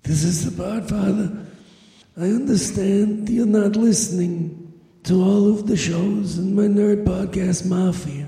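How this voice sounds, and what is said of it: Old man character voice. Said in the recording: “You sound like an old Jew.”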